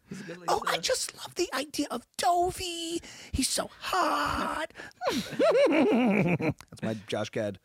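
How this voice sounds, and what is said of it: Olaf cartoon character voice impression. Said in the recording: “Is that the Frozen impression? ... Olaf impression.”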